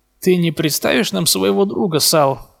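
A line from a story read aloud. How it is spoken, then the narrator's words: Forced smiling question. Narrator (Russian): выдавив улыбку, спросил Реми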